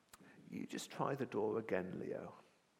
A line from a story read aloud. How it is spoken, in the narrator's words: Granddad murmurs in my ear